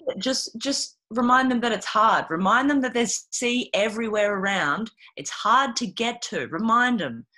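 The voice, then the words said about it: Exaggerated twangy Australian accent. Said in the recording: “an Australian doing an Australian accent. It's so good... it goes way more twangy”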